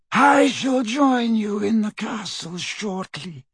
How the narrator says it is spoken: he said in his high, cold voice

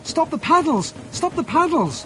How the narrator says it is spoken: cried

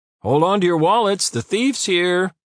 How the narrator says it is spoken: Tom called out so loudly that his voice echoed through the corridors

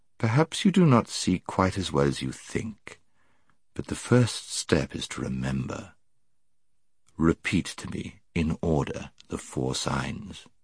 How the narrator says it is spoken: said Aslan, in a gentler voice than he had yet used

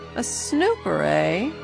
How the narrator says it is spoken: he sneered

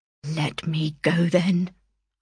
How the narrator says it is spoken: I murmured

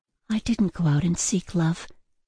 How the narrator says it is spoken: Ella muttered, more to herself than to him

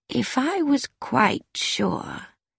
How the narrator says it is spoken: Miss Marple said slowly

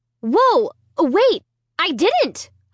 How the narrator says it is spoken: I cried frantically

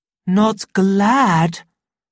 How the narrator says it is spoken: cried the savage with deep feeling

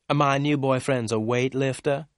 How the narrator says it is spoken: Susie replied

